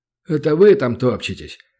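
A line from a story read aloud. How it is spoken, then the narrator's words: Grumbling. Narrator (Russian): проворчал вместо полковника, сидящий тут же у окна дума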